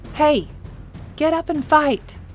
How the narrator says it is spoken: she said desperately

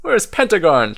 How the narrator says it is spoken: chirps Owl

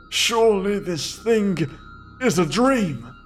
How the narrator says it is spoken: I said in that horrible voice that had somehow established itself in my throat

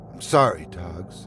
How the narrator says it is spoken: I said with my voice a wreck

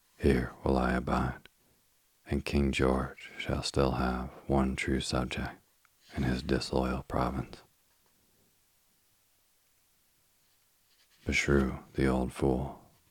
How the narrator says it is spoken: muttered Sir William Howe, growing impatient of her obstinacy and ashamed of the emotion into which he had been betrayed

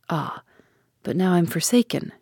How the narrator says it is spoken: she murmured

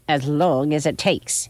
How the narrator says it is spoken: she snapped back

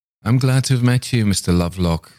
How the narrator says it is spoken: said Nicholas

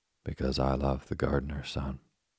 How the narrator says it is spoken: answered the princess

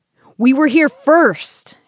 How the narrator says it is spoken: yells

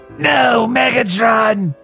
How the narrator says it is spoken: Einstein yell annoy

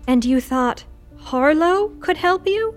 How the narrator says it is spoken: Lou groaned

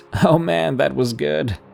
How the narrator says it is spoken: through the laughter, he could just get out the words

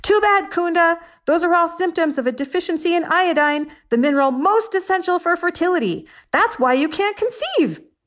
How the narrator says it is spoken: And I yelled

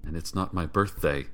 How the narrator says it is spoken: I mumbled

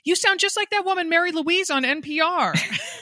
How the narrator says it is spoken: from across the net, she yells

